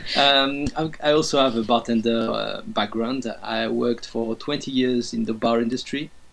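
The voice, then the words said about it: French accent. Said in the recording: “I'm the French one in the group, as you can tell with my beautiful accent, not even forcing it”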